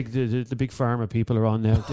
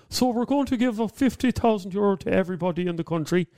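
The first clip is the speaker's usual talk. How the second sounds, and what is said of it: Imitates another person's voice. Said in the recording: “my Matt Cooper impression sounds exactly like Micheál Martin... I can only do one accent... here's my Micheál Martin”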